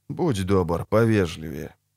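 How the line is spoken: Calm. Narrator (Russian): спокойно сказал Геральт

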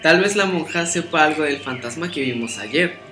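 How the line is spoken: Plain. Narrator (Spanish): dijo Pepe

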